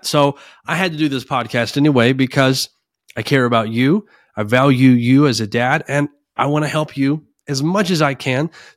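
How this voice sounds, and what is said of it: Voice sounding unwell. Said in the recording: “I'm not 100%, as you can probably tell by my voice. ... I have bronchitis.”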